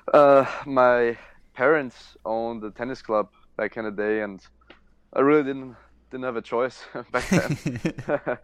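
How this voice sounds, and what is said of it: Austrian accent. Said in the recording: “that lovely accent, I believe you are from Austria”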